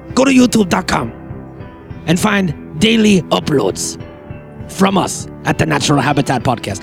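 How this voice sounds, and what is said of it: Star Wars alien character voice. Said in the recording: “I know this sounds like a racist Japanese accent, but it's not. I'm doing one of those guys from Star Wars.”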